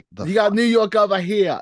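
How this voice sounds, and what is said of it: Put-on New York accent. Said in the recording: “This is my New York accent.”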